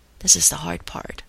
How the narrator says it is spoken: Carter whispered

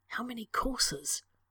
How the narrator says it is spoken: He whispered to Sherlock behind his hand

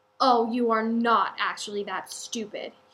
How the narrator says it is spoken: growls

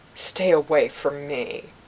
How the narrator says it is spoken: Jill Hira snarling

